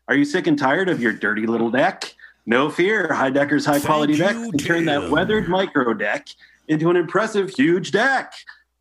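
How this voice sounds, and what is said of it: Impression of Tim Heidecker. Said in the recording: “I've been trying to do an impression of Tim.”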